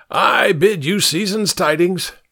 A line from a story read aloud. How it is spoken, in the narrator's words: the man said, shouting louder than necessary